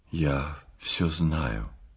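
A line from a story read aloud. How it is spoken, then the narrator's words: Quiet and sad. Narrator (Russian): сказал он ей тихим и печальным голосом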